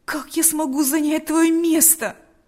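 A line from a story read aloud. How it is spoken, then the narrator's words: Exclamation. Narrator (Russian): воскликнул Павел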